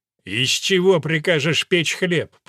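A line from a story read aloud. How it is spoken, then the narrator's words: Growling. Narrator (Russian): прорычал граф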